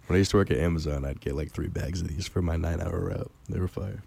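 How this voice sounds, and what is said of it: Hoarse, nearly lost voice. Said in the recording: “Your voice is what? ... My voice is gone today. ... I think I got him sick”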